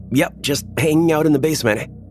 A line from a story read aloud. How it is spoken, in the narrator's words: I yell back up the stairs